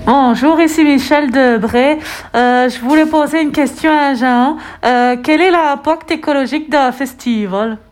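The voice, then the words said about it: Unusual regional French accent. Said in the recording (French): “elle a un accent un peu bizarre ... C'est l'accent rémois, ça? ... Je crois que c'est l'accent vosgien”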